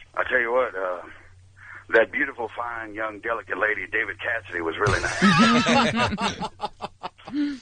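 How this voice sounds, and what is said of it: Imitates a famous actor's voice. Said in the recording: “doing an incredible Gary Busey impression”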